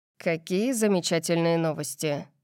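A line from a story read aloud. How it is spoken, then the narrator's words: Muffled, hollow voice. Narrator (Russian): сказал он глухо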